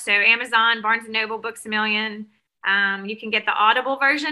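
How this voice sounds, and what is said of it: Southern American accent. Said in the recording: “my lovely Southern accent”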